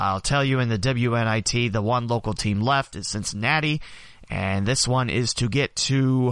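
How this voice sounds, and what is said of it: Usual voice. Nothing is said of it.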